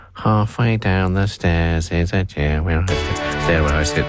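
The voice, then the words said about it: Poor impression of a Muppet character. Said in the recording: “That wasn't a very good impression of Robin, nor Kermit”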